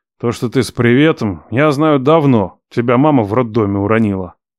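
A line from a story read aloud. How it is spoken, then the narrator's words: Sighing. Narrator (Russian): Вздохнул я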